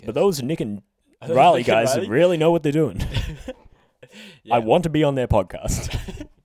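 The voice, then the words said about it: Imitates another person's voice. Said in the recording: “That's Obama. Yeah. That's Obama speaking. Not ... That was not a bit of an off-touch impersonation right there.”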